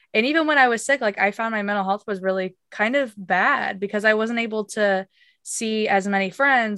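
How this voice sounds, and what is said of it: Voice sounds different, unwell. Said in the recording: “my voice sounds kind of weird ... My voice sounds different because I'm recovering from this sickness”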